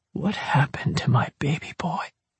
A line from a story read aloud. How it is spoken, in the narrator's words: He whispered